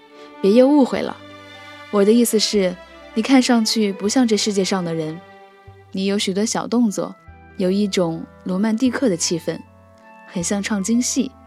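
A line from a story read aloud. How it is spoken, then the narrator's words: Laughing. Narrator (Chinese): 柳元笑道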